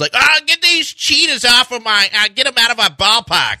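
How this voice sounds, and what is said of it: Put-on Boston accent, high pitch. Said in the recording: “that's not a bad Boston accent ... you even got like the high pitch going on”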